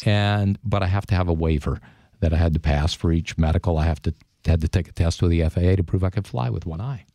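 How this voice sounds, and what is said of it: Smooth, mellifluous radio voice. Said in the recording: “you definitely have a radio voice... It's so mellifluous.”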